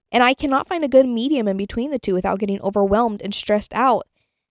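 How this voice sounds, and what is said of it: Slightly hoarse, fading voice. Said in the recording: “I'm kind of losing my voice a little bit”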